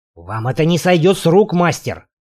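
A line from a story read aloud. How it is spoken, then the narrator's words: Fat man hissing. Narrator (Russian): прошипел толстяк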